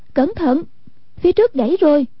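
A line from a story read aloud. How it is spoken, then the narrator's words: Urgent cry. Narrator (Vietnamese): Hoàng Dung kêu lên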